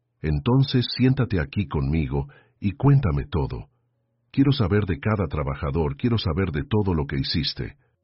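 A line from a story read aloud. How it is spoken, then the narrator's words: Soft voice. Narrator (Spanish): dijo con la voz suave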